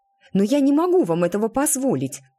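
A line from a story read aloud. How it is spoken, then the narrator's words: Exclamation. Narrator (Russian): воскликнула мисс Левил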